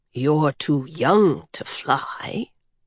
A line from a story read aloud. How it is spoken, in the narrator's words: the big man said in his deep, soft voice